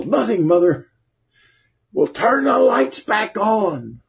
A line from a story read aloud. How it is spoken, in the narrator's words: yelled